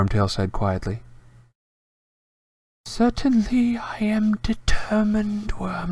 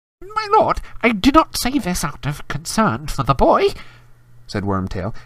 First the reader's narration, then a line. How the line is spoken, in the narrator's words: his voice rising squeakily